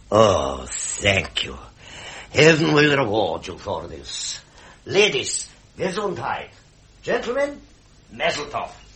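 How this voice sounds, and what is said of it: German accent. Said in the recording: “talks with a German accent, poses as a doctor”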